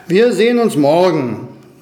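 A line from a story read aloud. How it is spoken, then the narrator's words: Eagle calling out. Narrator (German): rief der Adler ihnen zu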